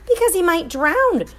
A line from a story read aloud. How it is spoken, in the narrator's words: squealed Mrs